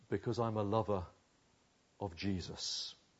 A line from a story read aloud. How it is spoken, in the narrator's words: lowering his voice, he said softly